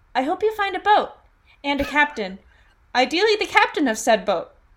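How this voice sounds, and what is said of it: Reads lines in a character voice. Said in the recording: “Am I going to read them in my Alia voice? Yes, you bet.”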